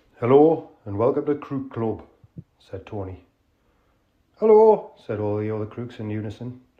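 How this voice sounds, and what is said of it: Authentic Geordie accent. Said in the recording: “With an authentic accent. ... read by a real Geordie.”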